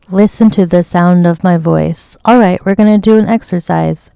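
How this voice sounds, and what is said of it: Soft, soothing, calming voice. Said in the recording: “in my soothing voice.”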